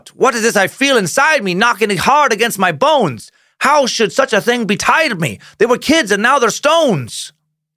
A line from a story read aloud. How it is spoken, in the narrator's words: He cried out